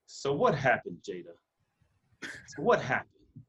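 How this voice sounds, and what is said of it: Imitates another person's voice, scolding tone. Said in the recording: “my best Will Smith impersonation ... It sounded like me scolding my child after receiving like a phone call from school”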